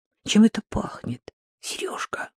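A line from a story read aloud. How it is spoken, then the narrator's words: Quiet question. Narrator (Russian): спросила Рита вполголоса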